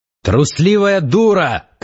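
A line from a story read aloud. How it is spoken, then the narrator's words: Shout. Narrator (Russian): крикнул Завулон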